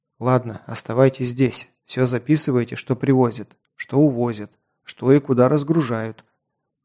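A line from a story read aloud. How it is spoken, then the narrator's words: Quiet. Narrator (Russian): тихо сказал Локт двум своим бойцам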